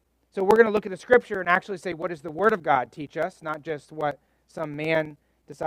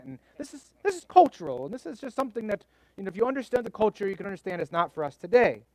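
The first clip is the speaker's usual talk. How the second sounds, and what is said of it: Put-on British accent. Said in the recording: “I'm trying to use my British accent ... They have some kind of British accent.”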